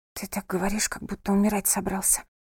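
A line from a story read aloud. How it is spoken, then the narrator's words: Whispered. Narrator (Russian): прошептала она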